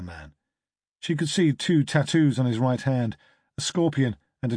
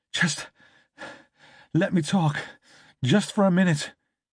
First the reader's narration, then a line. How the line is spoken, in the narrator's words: she gasped